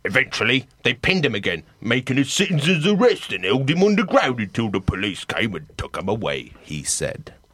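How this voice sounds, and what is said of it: Imitates another person's voice. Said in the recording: “great Gary Busey impression.”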